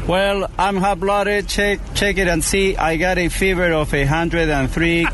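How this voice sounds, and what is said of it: Latin accent. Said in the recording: “The Latin accent”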